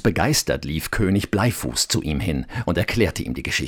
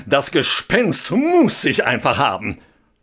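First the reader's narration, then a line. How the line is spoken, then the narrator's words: Calling out. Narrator (German): rief er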